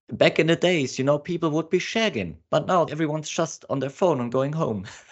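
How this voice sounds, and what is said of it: Put-on English accent imitating Hugh Grant. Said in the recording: “Excuse my English accent, it's not as great as my Australian.”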